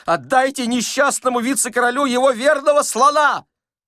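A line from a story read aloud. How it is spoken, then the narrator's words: Answering, then suddenly yelling. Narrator (Russian): ответил бухгалтер, и, спохватившись, сейчас же завопил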